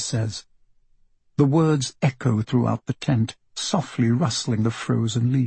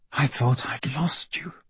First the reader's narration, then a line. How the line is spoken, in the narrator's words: she says when she reaches him, her voice a tremulous whisper